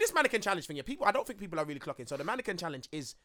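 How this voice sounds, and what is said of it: Usual voice. Nothing is said of it.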